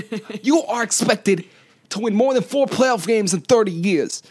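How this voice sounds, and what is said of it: Poor Stephen A. Smith impression. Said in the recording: “That was a terrible impression of him.”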